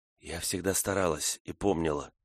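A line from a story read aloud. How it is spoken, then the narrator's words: Whisper. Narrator (Russian): шепнула Фрона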